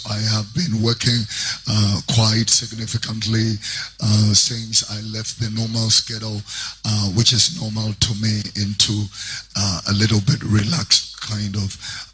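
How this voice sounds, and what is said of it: Strained, worn-out voice. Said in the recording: “Forgive my voice. ... it's been screaming here and there.”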